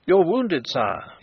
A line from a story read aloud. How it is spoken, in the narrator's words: exclaimed